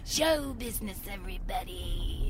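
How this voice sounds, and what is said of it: Imitates another person's voice. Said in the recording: “like Carol Channing ... it's hard to do that voice”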